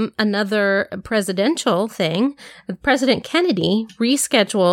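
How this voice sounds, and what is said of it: Usual voice. Nothing is said of it.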